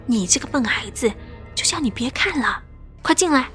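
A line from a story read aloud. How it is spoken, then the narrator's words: Mother's quiet scolding. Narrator (Chinese): 我妈马上小声的骂我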